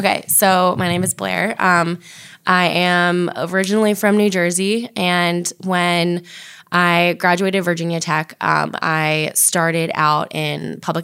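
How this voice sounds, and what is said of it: Hoarse voice. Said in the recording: “I do apologize in advance for my hoarse voice... I don't normally sound like this”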